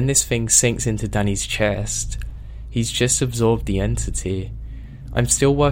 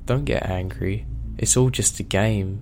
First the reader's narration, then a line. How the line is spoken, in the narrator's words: it says in that ungodly voice